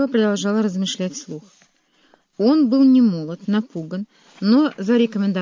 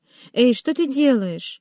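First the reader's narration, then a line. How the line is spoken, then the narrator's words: Protesting exclamation. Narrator (Russian): Протестующе воскликнула Ева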